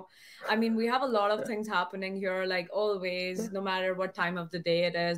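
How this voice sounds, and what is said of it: French accent in English. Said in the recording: “you're saying it perfectly right in the French accent ... The R.”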